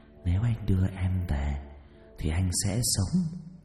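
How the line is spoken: Grinning whisper. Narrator (Vietnamese): nó nhè cái hàm răng ra cười, nó thì thầm vào tai tôi

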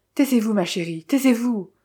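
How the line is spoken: Frantic pleading. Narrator (French): supplia-t-il à demi éperdu

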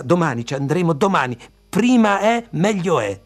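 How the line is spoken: Impatient shout. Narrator (Italian): la nonna gridò con impazienza

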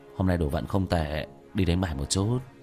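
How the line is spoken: Surprised mutter. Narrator (Vietnamese): Vương Quân Diệt kinh ngạc lẩm bẩm

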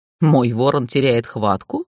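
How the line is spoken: King's short laugh. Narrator (Russian): хохотнул король

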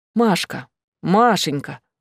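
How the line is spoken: Gentle calling to child. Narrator (Russian): ласково звал Ксан ребенка

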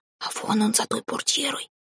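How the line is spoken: Whisper. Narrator (Russian): шепнула она

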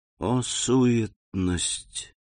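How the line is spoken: Whisper. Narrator (Russian): прошептал граф

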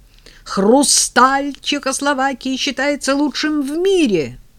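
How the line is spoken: Yelling, seeking revenge. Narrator (Russian): Роза Константиновна решила взять реванш и завопила

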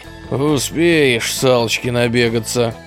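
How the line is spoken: Grumbling. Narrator (Russian): пробурчал участковый

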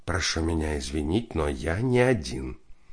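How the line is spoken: Whispered. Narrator (Russian): Борис Борисович шепнул

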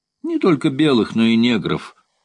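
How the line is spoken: Laughing. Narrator (Russian): сказал гамбуржец, смеясь

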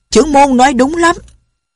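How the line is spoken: Loud crowd shout. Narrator (Vietnamese): Hơn 100 tên đạo nhân lớn tiếng hô

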